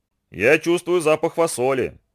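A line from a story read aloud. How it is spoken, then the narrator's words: Excited grumble. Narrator (Russian): взволнованно принюхиваясь, проворчал Ананси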